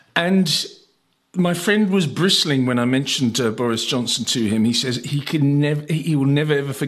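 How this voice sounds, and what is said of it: Usual voice. Nothing is said of it.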